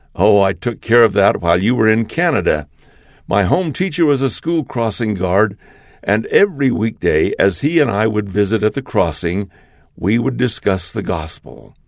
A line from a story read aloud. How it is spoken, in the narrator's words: He laughed and responded